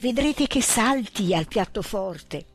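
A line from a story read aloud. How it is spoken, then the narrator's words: Whispering. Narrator (Italian): si bisbigliavano i baroni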